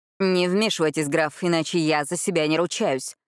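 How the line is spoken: Growled. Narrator (Russian): буквально прорычал

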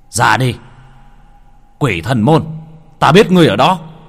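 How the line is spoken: Yelling. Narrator (Vietnamese): Hắn gào lên

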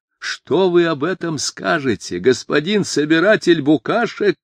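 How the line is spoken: Screaming. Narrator (Russian): не закричал, а прямо завопил он

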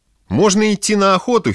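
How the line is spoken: Giggling. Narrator (Russian): хихикал он

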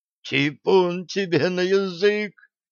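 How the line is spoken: Hoarse croak. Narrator (Russian): прохрипел служитель

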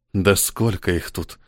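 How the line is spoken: Whispered. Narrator (Russian): прошептала Мел

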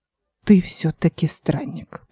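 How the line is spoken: Old man whispering. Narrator (Russian): переходя на шепот, заметил старик

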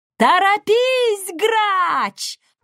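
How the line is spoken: Shrill, desperate shout. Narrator (Russian): пронзительно, почти отчаянно закричала

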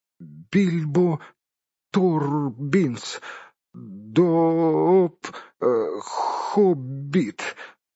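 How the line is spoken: Trembling, forced-out words. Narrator (Russian): выдавил бедный господин Торбинс, дрожа как осиновый лист

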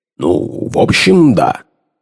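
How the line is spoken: Gruff mutter. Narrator (Russian): буркнул в ответ Лейстрейд

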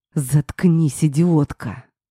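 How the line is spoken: Angry growl. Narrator (Russian): зарычал на меня

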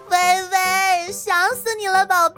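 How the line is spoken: Excited loud cry. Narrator (Chinese): 戴子英大叫一声微微，激动

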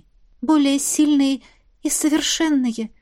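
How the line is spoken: Trembling voice. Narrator (Russian): дрогнувшим голосом уточнила я

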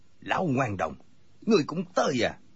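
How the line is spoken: Angry. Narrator (Vietnamese): Cừu Thiên Nhận tức giận nói

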